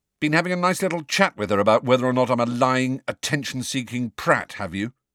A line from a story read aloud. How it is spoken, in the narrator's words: Harry said loudly